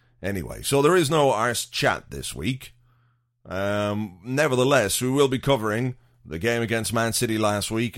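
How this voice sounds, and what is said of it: Slightly gone, fading voice. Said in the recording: “as you might hear from my voice, it's slightly gone or going”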